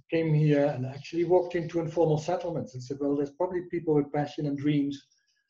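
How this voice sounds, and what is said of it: Dutch accent in English. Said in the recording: “You can hear my accent. I'm not a South African. I'm a Dutch guy.”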